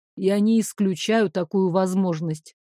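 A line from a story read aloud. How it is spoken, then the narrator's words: Calm reply. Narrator (Russian): спокойно ответил Дамиан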